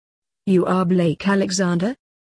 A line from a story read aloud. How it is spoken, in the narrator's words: said Fognini